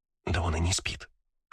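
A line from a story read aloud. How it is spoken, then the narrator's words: Whisper. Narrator (Russian): шепотом сказала мне Кристина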